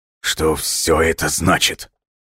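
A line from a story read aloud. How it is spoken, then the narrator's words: Strained, horrified. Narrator (Russian): выдавил из себя Смирнов, в ужасе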